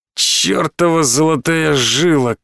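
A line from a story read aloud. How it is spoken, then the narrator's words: Sighing captain. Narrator (Russian): капитан вздохнул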